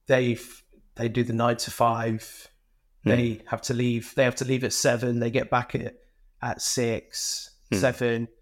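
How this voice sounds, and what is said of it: Leicester English accent. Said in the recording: “I still speak in a Leicester accent”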